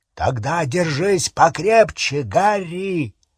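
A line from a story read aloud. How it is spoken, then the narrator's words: Deafening hoarse roar. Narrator (Russian): Раздался оглушительный, хриплый рев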